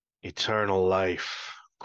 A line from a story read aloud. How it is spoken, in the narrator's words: croaked